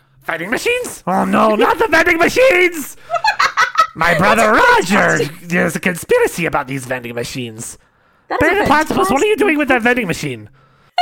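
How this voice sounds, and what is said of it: Cartoon villain character voice impression. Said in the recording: “best Doofenshmirtz impression that I've ever heard”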